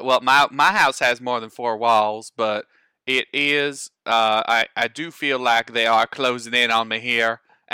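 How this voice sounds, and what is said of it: Put-on Southern US accent. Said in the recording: “I have slipped into a southern accent ... all of this southernness ... he was still talking in a southern accent”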